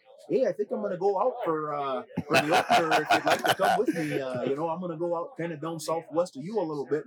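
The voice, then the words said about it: Thick Minnesota accent imitation. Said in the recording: “he's got a thick Minnesota accent.”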